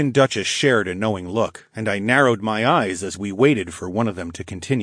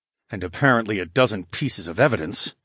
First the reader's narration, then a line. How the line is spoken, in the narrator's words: muttered